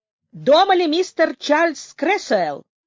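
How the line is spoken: Loud question. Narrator (Russian): громко спросил Паркер

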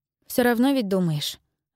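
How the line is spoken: Sighing. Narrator (Russian): вздохнула Джейлис

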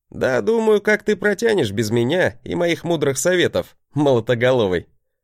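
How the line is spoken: Chuckling bravado. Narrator (Russian): хохотнул я, показывая свою обычную браваду

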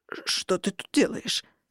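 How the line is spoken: Hoarse stammering man. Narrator (Russian): заметно заикаясь, просипел мужчина

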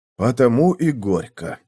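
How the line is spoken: Sighing. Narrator (Russian): вздохнул Давид

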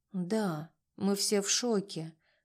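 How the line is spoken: Sad admission. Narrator (Russian): грустно призналась я

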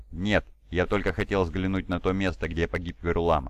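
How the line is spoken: Plain. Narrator (Russian): ответил Мар

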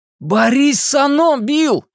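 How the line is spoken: Shout. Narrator (Russian): крикнул Ричи

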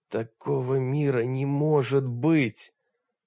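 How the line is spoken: Unhappy voice. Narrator (Russian): повторил Олег несчастным голосом

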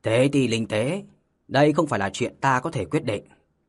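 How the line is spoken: Stern. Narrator (Vietnamese): ông ta nghiêm nghị và nói

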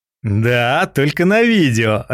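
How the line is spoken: Laughing. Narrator (Russian): рассмеялся я

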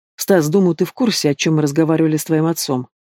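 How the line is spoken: Calm. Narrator (Russian): Спокойно говорит он

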